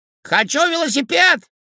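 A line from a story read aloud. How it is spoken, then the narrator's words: Child shouting from afar. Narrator (Russian): крикнул со двора Максимка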